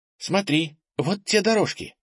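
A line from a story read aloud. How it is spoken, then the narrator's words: Exclaimed. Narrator (Russian): воскликнула Ира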